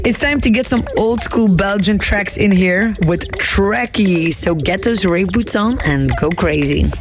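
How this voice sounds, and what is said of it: Strained, worn-out voice. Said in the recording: “As you can hear, my voice is still recovering from the weekend”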